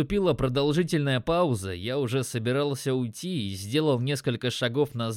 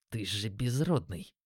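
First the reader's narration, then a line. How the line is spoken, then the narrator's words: Forced out. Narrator (Russian): выдавил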